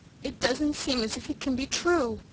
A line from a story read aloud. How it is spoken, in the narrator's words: sobbed Cecily